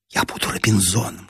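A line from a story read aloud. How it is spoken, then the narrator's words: Whisper. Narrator (Russian): шепнула мне Нина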